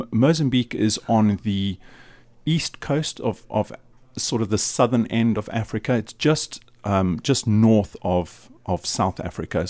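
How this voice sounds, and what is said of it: Southern African accent. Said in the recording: “You're certainly not from the UK. You've got a, I think, is it a South African or accent or something?”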